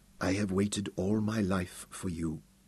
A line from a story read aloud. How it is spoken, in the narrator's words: she whispered into his mouth